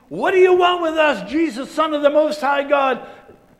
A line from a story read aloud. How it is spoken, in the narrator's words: yelling